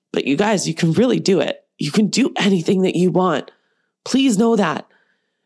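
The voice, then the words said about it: Emotional, choked-up voice. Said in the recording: “I'm even getting emotional”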